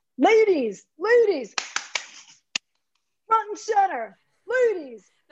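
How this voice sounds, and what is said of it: Imitates another person's voice, yelling. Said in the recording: “my best impersonation ... yell at me like I'm a cheerleader on the sidelines”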